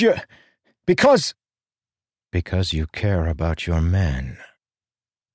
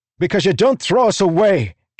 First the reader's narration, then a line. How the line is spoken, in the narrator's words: Kaladin shouted